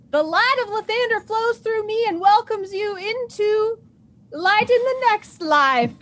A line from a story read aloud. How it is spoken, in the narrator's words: I yell